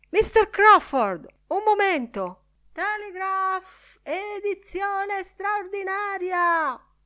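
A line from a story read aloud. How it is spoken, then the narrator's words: Breathless shout. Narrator (Italian): Bloom, senza fiato, colto in un mulinello di strilloni sfrenati presso gli uffici dell'Irish Catholic e del Dublin Penny Journal, gridò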